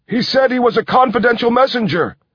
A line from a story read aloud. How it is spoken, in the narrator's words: shouted a man